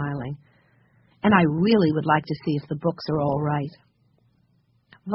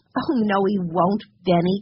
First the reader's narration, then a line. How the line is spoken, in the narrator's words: cried Jessie